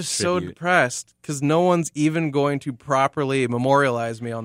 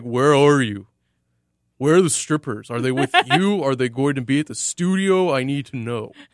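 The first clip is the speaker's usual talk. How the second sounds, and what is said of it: Imitates another person's voice. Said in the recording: “That was a bad Will, though, for me. It sounded like bit like Buffalo Bill from Silence of the Lambs. More than my brother.”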